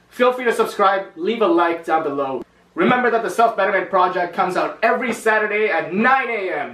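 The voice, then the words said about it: Loud, salesy announcer-style delivery. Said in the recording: “Why the fuck do you sound like you're selling some guy? ... I'm just being loud”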